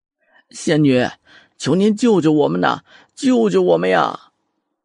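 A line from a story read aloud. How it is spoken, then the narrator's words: Crying plea. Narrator (Chinese): 有些人忍不住 哭了起来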